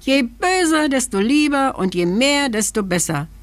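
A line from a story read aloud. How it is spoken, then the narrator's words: Little man calling. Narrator (German): rief das Männchen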